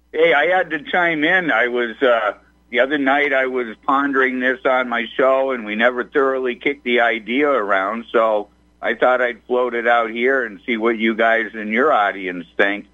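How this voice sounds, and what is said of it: Northeastern rural American accent. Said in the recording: “my northeastern redneck friend. I love your accent”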